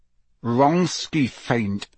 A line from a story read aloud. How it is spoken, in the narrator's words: said Harry through gritted teeth